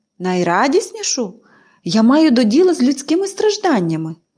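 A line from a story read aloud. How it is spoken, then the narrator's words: Exclamation. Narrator (Ukrainian): вигукнув він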